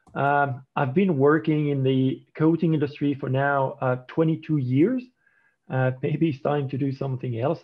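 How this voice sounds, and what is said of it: French accent. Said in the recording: “as you may recognize by my accent, I'm actually French.”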